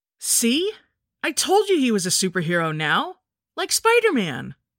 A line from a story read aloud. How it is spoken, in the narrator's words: said excitedly